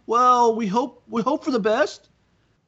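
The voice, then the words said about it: Larry Scott impression. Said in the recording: “Your Larry Scott impression gets better every season, I swear.”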